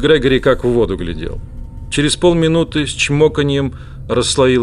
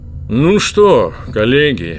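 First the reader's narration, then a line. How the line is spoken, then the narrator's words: Enthusiastic deep voice. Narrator (Russian): пробасил он не без воодушевления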